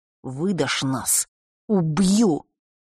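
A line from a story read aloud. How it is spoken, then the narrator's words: Hissed threat. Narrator (Russian): прошипел из пустоты Фэш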